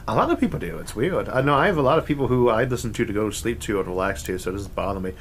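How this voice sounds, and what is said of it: Relaxing Mid-Atlantic accent, speech impediment. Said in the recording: “your accent, even though it is actually caused by an impairment? For some reason, I find it so relaxing ... I do have an accent ... underneath the speech impediment ... it's Mid-Atlantic”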